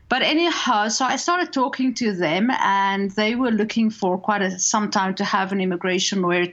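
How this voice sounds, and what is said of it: South African accent. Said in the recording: “I have the same accent as his parents ... I grew up in South Africa”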